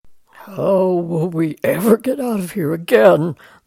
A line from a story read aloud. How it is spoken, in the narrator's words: groaned